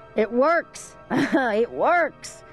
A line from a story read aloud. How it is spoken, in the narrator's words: the man yelled